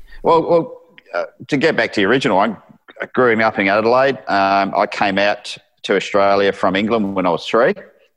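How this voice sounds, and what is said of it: Mixed English and Australian accent. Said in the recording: “how long you been out from New Zealand? ... a combination of the Pommy and Australian accent”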